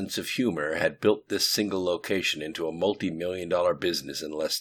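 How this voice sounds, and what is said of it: Usual voice. Nothing is said of it.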